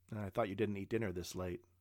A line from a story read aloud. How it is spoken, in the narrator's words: said Joseph